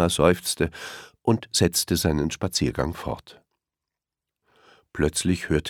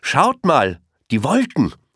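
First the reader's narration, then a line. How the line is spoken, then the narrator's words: Calling out. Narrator (German): rief Elmar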